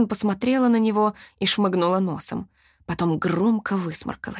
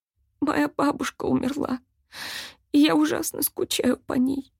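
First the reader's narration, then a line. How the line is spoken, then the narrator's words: Trembling, near tears. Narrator (Russian): дрожащим голосом сказала, грозя опять разрыдаться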